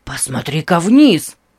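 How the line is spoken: Excited. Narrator (Russian): взволнованно сказал Нейт

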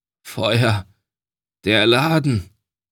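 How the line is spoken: Hoarse, barely audible voice. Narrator (German): Seine Stimme war heiser, und er konnte die Worte kaum noch herausbringen

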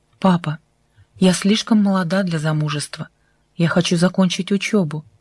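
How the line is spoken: Forced calm. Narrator (Russian): Тара старалась говорить спокойно

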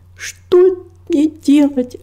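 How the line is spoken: Bursting into sobs. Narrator (Russian): разрыдалась она

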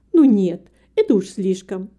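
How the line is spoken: Kind woman exclaiming. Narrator (Russian): воскликнула добрая женщина

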